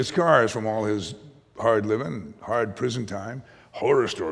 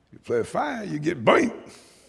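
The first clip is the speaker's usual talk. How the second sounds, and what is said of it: Imitated slight Cajun New Orleans accent. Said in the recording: “he said he was from New Orleans, but he'd said Nolens. He had the accent... He had a little Cajun”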